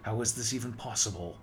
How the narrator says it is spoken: I asked, my voice rising louder than I typically expected from myself

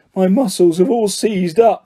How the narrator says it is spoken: he groaned

